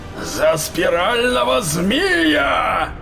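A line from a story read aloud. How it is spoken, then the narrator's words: Roared battle cry. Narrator (Russian): взревел Хрисаор, атакуя своих несостоявшихся убийц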